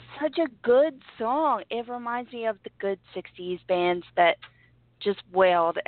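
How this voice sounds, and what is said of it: Sick, strained voice. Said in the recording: “apologize for my voice, guys, but I am so sick ... under the weather”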